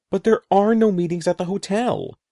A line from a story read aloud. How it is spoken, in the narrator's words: Eddie exclaimed